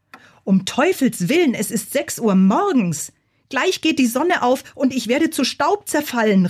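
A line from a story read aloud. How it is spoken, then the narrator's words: Calling out. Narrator (German): rief er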